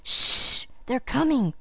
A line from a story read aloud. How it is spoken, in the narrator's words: whispered Felicity excitedly